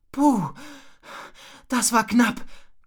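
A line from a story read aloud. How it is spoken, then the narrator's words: Exhausted panting. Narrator (German): keuchte Rocco erschöpft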